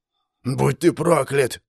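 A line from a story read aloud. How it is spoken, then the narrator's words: Vicious hoarse wheeze. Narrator (Russian): злобно прохрипел мой противник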